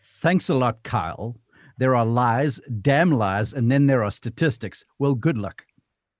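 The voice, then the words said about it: Put-on South African accent. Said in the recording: “I want to do my best South African accent.”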